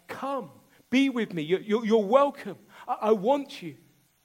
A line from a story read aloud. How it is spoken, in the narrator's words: his entrance shouts